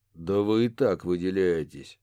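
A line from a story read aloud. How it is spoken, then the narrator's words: Grumbling. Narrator (Russian): пробурчал О'Салливан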